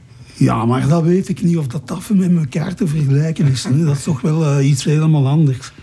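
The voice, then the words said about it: Broad Antwerp Flemish with Brussels traces. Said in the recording (Dutch): “ik spreek nog platter eigenlijk dan die mannen van Antwerpen zelf ... het Brussels hoor je nog wel bij jou”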